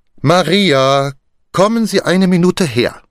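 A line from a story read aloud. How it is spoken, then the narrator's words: Called, then louder. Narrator (German): rief sie, dann lauter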